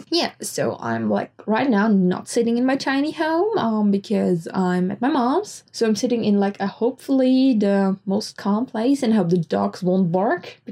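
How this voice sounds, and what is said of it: Muffled, congested voice from a cold. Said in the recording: “my voice is kind of strange. I still have a kind of annoying cold ... I might sound a little muffled”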